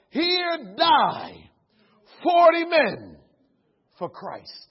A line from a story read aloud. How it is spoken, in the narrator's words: the 40 of them together begin to shout